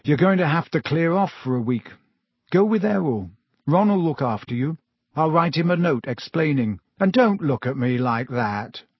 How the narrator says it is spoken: he said gloomily

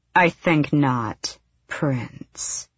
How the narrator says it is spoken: she said in her midnight voice

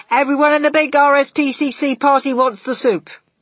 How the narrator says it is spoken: he shouted

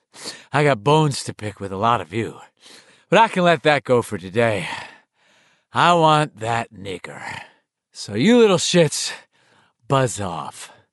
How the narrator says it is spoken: Panting heavily as he spoke, and still sounding more than a little like a human bull, Henry said

